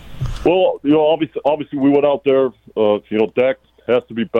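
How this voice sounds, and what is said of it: Imitates another person's voice. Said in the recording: “I'm actually your Mike McCarthy impersonator. Your resident Mike McCarthy impersonator.”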